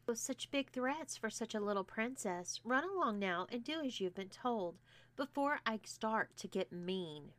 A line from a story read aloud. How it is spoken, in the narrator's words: responded Alexis calmly